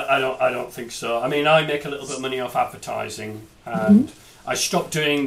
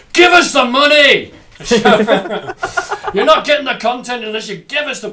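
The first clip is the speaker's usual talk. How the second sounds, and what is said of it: Put-on Scottish accent impression. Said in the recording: “my impression of Bob Geldof ... I don't know why I'm doing a Scottish accent.”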